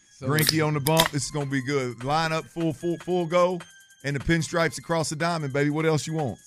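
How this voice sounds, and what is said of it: Heavy regional accent. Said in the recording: “leave it to ... to talk about a heavy accent ... I bet you they'd say you got a heavy accent.”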